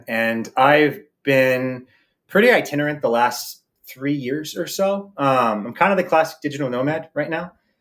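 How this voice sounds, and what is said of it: American accent. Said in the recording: “I'm from the U.S. You can like tell from the accent.”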